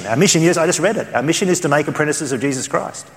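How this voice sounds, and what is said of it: Australian accent. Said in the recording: “in my Australian accent”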